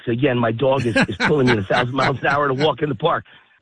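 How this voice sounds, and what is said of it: Out of breath while talking. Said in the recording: “I'm out of breath.”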